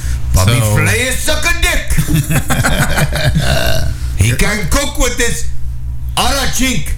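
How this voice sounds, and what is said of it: Poor put-on Asian accent. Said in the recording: “Your Asian impression is not as good as all your other impressions.”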